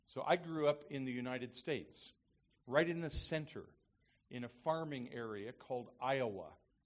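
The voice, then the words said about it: American accent, not Australian. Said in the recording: “I don't have a true Australian accent”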